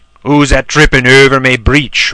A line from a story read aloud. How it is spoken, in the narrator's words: roared the horrible trowel